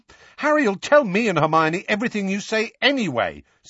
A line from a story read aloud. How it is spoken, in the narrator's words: said Ron hotly